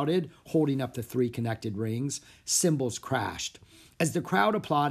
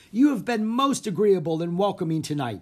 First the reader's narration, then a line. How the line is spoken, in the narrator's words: he shouted